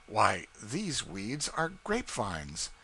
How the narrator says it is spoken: exclaimed

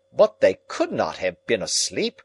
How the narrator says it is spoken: cried Lord John

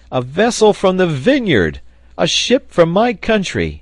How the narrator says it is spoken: he cried

